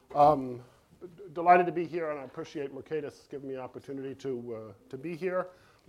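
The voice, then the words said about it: Voice strained by a cold. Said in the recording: “My voice is, I'm fighting a cold a little bit”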